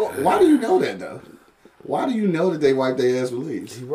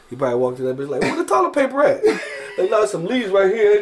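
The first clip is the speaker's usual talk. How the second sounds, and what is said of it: Put-on accent. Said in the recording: “You gonna use a little accent?”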